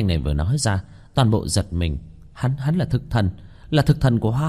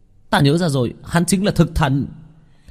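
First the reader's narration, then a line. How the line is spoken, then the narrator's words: Sudden realizing exclamation. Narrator (Vietnamese): giống như nghĩ đến cái gì kêu lên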